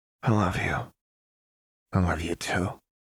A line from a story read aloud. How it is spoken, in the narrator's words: Jinx murmured back